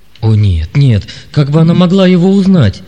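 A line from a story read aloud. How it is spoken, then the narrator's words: Trembling exclamation. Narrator (Russian): воскликнул Лессинг дрогнувшим голосом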